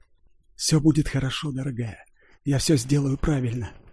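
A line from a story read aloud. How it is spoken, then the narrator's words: Whisper. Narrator (Russian): прошептал он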